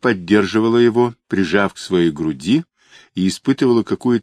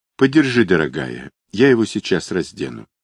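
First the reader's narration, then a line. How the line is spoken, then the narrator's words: Aunt speaking softly. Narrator (Russian): тетя мягко сказала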